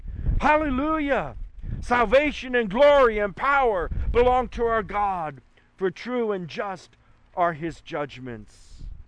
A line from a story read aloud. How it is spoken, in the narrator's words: the roar of a great multitude in heaven shouting